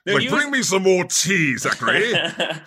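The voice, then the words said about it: Put-on British accent. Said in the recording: “He's got a British accent”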